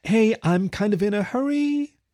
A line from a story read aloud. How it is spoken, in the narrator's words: Sunny called out toward the back of the cafe